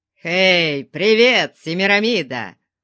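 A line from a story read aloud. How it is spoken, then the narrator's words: Roaring. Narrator (Russian): взревел Конан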